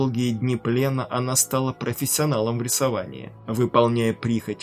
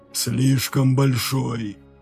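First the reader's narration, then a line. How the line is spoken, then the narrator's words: Hoarse wheeze. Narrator (Russian): прохрипел ее тюремщик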